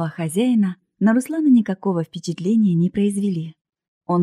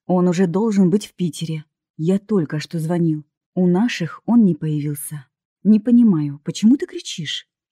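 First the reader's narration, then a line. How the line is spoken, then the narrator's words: Said very calmly. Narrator (Russian): с укором, очень спокойно сказал Лев Николаевич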